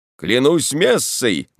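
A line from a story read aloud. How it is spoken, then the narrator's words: Shout then loud laughter. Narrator (Russian): крикнул и расхохотался во все горло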